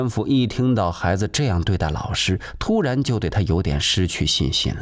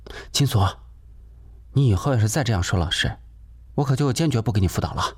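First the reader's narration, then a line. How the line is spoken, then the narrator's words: Hurried, dissuading. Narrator (Chinese): 贾秀也急忙劝止他说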